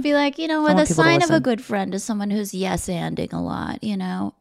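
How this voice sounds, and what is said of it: Imitates another person's voice. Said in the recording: “her impression. It's think, someone you would recognize by their voice”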